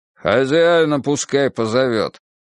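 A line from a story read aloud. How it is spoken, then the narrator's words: Deep, irritated old man. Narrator (Russian): густо и раздраженно проговорил седоволосый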